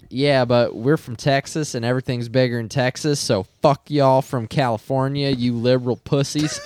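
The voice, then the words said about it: Put-on Texan accent. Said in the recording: “That was a great accent, by the way.”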